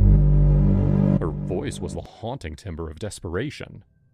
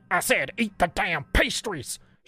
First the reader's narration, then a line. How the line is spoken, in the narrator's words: She barked again, her greasy face quickly turning beetroot red as she spoke in anger